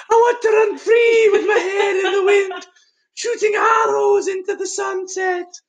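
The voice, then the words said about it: Imitates a movie character's voice. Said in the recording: “my impression? ... Can you do it again?”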